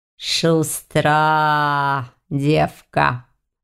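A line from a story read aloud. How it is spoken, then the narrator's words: Approving drawl. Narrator (Russian): одобрительно протянул оборотень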